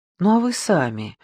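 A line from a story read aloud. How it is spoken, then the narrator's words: Soft question. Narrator (Russian): мягко спросила Ричардс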